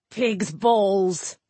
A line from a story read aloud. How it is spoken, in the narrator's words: Nowick spat out